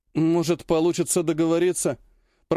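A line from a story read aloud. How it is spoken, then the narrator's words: Mumble. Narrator (Russian): промямлил один из ударников демографического труда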